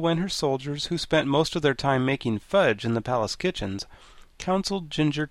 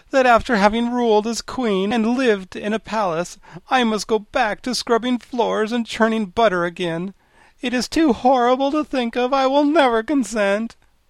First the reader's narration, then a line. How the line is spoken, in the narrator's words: she moaned